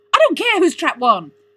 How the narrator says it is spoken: cried Tim, exasperated

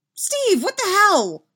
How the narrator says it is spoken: Henderson exclaims

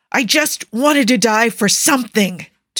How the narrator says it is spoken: Tony roars suddenly

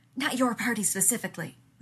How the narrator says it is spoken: Rodney hissed back

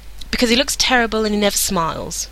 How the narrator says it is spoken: Morgana snapped back

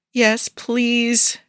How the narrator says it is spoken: he whines

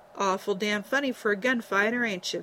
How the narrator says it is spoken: Vin growled, though humor glinted in his blue eyes

